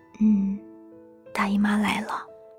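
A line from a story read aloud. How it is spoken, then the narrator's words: Girl speaking softly. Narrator (Chinese): 女孩轻声地说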